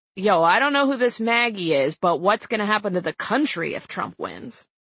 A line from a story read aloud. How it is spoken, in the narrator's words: The driver interrupted to say in a thick Bronx accent